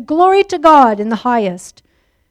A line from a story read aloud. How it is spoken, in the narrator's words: He was depressed … in his frustration and bitterness shouted